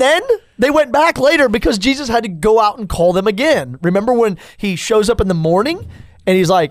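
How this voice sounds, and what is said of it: Usual voice. Nothing is said of it.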